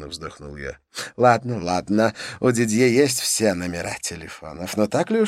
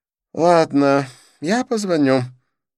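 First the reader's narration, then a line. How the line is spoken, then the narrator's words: Sighing. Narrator (Russian): вздохнул Дидье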